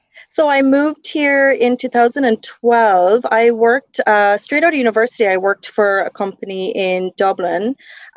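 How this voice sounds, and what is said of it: Slightly faded Irish accent. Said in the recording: “I actually grew up in Ireland. I don't know if you'll be able to tell with my accent. ... It's definitely faded a little bit, but I grew up in the south of Ireland in County Cork”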